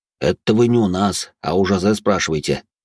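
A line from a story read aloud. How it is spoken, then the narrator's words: Deep voice, smirking. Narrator (Russian): усмехнувшись, пробасил Де Журиньи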